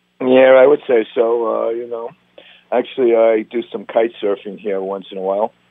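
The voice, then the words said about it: Strong American East Coast accent. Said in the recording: “you're obviously from the East Coast ... This is not a Hawaiian accent that we're listening to here ... That accent is so powerful. It's so ingrained”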